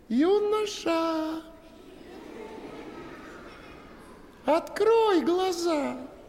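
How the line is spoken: Charming young voice. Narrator (Russian): сказала царевна чарующим голоском

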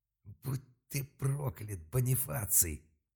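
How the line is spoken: Growled on exhale. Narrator (Russian): На выдохе даже не крикнул, а прорычал Малк

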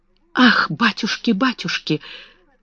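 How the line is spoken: Excited whisper. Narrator (Russian): восторженно зашептала Бекки

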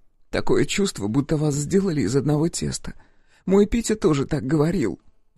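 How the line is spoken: Sobbing. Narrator (Russian): всхлипнула Вера

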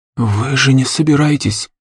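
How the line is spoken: Breathless whisper. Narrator (Russian): выдохнул шепотом парень

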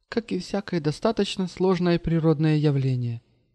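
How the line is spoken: Sigh. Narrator (Russian): вздохнула Маша

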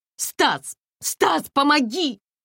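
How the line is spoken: Struggling panicked shout. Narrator (Russian): закричала Комарова, пытаясь одновременно вырваться и одернуть задранную юбку

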